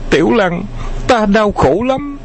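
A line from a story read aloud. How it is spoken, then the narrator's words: Gasping, exhausted. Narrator (Vietnamese): Khấu Trọng nôn hết mật xanh mật vàng, cúi đầu thở hổn hển nói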